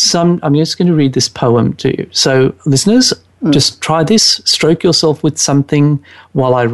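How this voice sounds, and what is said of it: Usual voice. Nothing is said of it.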